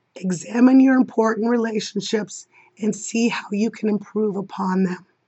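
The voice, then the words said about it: Strained, sore-sounding voice. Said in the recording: “That's about as much of an explanation my voice can give today... I wish my voice was better for the response... My vocal cords are hurting.”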